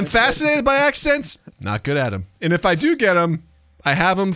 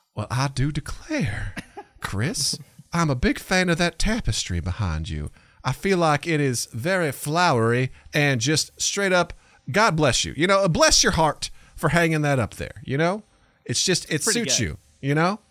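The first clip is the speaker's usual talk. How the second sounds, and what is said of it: Put-on Southern belle accent. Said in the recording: “Southern Bell. ... Does Accents.”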